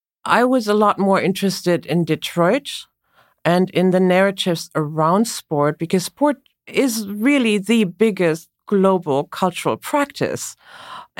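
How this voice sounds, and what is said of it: German accent. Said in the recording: “As you can perhaps tell from her accent, ... is German.”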